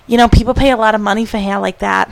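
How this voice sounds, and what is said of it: Put-on North Jersey old-lady accent. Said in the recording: “have that accent? ... They always have that accent. ... It was like North Jersey.”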